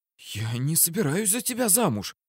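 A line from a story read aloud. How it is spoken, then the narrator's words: Alarmed woman's whisper. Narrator (Russian): всполошилась потенциальная невеста, правда, шепотом, боясь привлечь к нам чужое внимание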